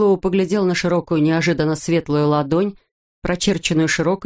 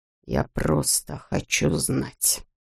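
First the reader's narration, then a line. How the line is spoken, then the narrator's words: Quiet. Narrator (Russian): тихо проговорил он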